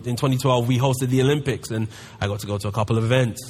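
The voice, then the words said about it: London English accent. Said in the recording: “as you can tell by my accent, I'm from London”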